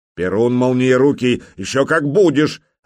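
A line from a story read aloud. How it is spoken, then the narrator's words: Exasperated prince barking. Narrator (Russian): рявкнул белозерский князь, потому что сегодня с избытком хватило пререканий с малолетним нахалом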